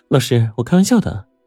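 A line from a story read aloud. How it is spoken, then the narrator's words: Laughing heartily. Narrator (Chinese): 钟灵见状，哈哈大笑起来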